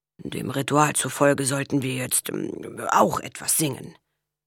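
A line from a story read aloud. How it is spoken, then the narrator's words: Murmured. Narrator (German): murmelte Father O'Toole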